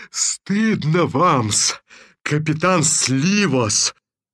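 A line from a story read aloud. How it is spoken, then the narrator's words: Grumbling, gradually calming. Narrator (Russian): ворчал Шульгович, постепенно успокаиваясь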